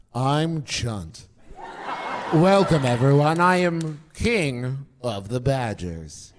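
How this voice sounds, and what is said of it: Impression of Chunt. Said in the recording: “do an impression of Chunt”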